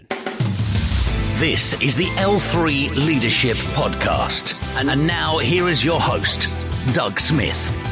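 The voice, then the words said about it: British accent. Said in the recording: “the new intro with a British accent”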